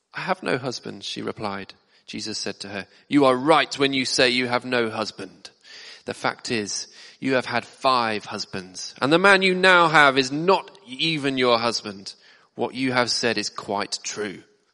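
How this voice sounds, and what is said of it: Cross, angry-sounding character voice. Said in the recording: “That's my best impression of a cross Jesus.”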